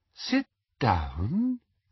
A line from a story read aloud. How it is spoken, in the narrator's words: said Umbridge in her soft, silky voice